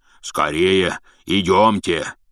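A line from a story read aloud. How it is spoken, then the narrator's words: Shouting. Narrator (Russian): закричал он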